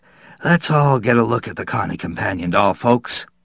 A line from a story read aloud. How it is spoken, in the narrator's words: Hooker Glebe wheezed